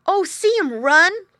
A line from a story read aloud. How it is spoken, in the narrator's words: cried the boy